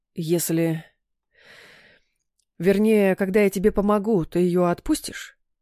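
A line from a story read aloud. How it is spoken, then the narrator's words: Nervous mumble. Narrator (Russian): Явно нервничая, промямлил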